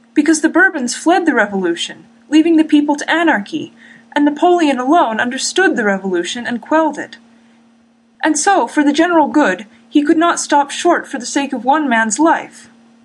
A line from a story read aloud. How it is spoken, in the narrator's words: he continued desperately